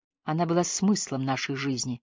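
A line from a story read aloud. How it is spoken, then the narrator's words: Quiet. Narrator (Russian): тихо сказал Энди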